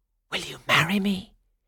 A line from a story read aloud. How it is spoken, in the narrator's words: He whispered